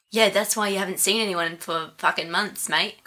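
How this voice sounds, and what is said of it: Imitates another person's accent. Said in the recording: “I'm imitating his accent.”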